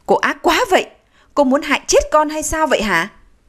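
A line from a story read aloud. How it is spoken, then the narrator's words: Loud voice. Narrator (Vietnamese): anh lớn tiếng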